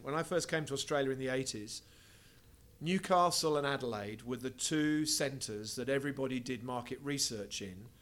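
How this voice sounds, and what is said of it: English accent. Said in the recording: “you can probably tell I have an English accent.”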